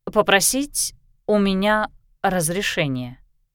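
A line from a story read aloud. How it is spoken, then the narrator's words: Slow repetition. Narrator (Russian): медленно повторила Кристина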